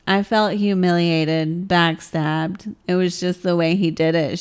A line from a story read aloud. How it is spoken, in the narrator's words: said